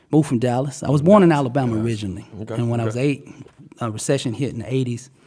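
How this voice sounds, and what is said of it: Slight Southern twang accent. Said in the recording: “I heard the twang. I heard that accent ... sound like a little southern, you know, Dallas and Miami and down south”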